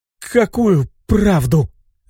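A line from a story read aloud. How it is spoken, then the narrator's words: Stammering hoarse question. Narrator (Russian): Заикаясь, хрипло спросила Аделина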